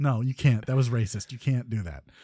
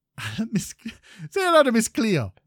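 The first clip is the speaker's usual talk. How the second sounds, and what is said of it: Bad put-on Jamaican accent. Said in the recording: “a horrible, horrible impression of a Jamaican accent”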